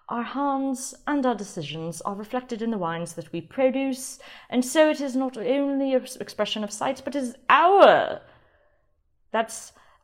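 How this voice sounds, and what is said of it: Put-on British accent. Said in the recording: “I'll stop the British accent, it's probably getting annoying.”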